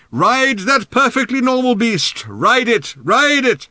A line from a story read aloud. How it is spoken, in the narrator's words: Ford shouted in Arthur's ear